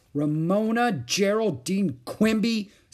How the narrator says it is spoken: said Beezus angrily

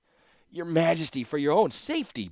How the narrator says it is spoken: begged the captain

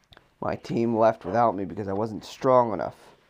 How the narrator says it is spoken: Oscar snapped

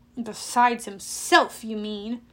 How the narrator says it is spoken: I growled

